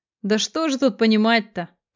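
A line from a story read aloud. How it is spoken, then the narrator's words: Dismissive snort. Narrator (Russian): хмыкнул Курилов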